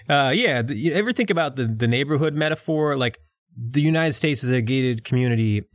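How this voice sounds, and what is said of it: New York–Philadelphia accent. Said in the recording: “we both do New York accents, but yours is your actual accent... My accent is a combination of New York and Philadelphia”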